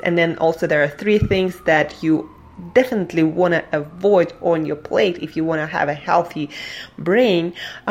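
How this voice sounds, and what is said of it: Speaks with an accent. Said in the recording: “if that comes out from my accent”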